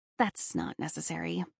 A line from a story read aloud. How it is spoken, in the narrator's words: I mumbled